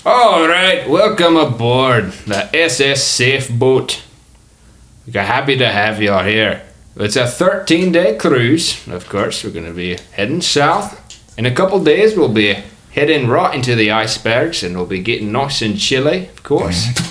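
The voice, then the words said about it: Mixed, hard-to-place character accent. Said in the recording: “What is this guy's accent? He's Australian and Scottish. ... This is a Gator accent. ... You can't quite get a grip on it. ... I thought it started Jamaican”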